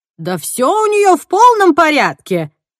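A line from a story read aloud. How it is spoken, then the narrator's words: Shout, cracking voice. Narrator (Russian): крикнула Эдна срывающимся голосом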